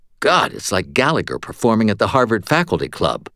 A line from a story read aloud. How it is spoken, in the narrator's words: muttered